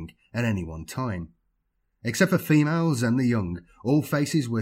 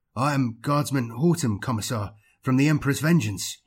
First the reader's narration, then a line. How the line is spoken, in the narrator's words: he said quickly